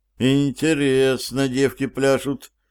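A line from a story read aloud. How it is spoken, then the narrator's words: Barely audible mutter. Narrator (Russian): еле слышно пробормотал себе под нос Стив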